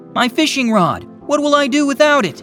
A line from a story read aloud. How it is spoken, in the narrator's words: he yelled and screamed